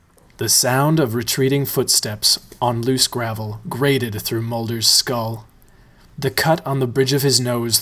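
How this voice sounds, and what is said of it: Creepy storytelling voice. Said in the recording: “creepy voice”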